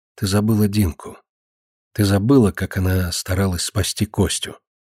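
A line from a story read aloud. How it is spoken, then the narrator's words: Bitter reproachful whisper. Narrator (Russian): Марина с горьким упреком зашептала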